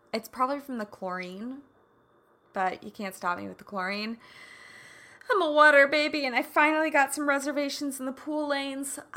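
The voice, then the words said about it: Raspy, not warmed-up voice. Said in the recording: “My voice isn't warmed up. I swam today, so whenever I swim, I feel like I sound raspy. ... I will take the raspiness.”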